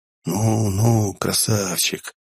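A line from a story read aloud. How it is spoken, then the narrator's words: Whisper in ear. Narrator (Russian): зашептал на ухо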